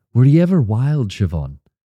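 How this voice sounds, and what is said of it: Imitates a film character's voice. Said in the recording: “That's a good impression. ... who I just quoted”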